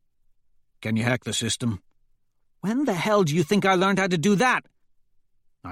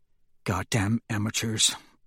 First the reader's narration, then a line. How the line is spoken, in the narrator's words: Trigg mutters